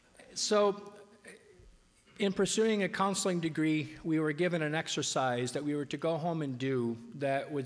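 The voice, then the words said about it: Voice weak and coming and going. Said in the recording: “I'm still getting over a bug, so my voice may come and go just a little bit.”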